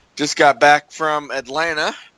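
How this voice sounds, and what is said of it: Voice sounds off from a cold. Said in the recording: “I got a little bit of a cold, which is why my voice is kind of off”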